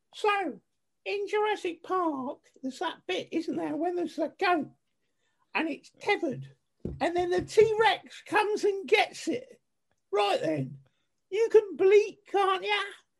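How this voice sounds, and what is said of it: Put-on Essex accent. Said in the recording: “Sarah has a plan, which is, she's from Essex. I'm going to do her accent for you.”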